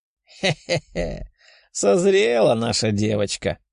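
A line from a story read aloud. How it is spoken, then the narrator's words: Giggling. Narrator (Russian): хихикнула Лиза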